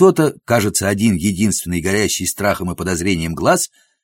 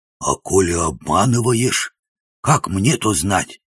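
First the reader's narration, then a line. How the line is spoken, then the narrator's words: Hoarse voice. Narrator (Russian): услышал я хриплый голос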